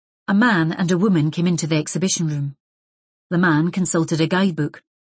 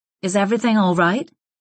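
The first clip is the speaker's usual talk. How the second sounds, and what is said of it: American accent. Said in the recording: “She spoke with an American accent.”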